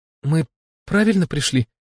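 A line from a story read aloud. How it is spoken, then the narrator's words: Frightened question. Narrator (Russian): испуганно уточнила Смерть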